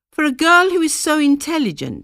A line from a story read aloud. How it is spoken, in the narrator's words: would exclaim